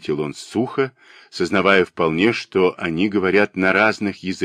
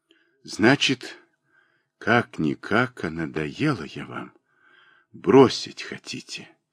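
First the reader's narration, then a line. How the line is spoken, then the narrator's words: Quiet muffled whisper. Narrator (Russian): тихо, глухим голосом прошептала она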